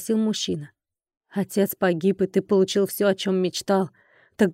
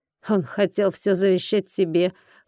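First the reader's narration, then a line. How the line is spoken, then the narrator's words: Snorting, wry. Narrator (Russian): хмыкнул он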